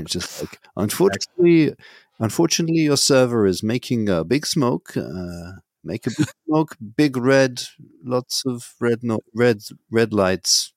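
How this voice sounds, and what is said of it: Attempted Finnish/Scandinavian accent. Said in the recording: “It's not really a Hetzner accent. ... I was trying to go for Finland ... Scandinavian”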